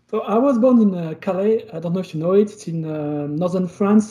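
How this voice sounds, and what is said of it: French accent. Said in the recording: “I'm French, so sorry about the terrible French accent”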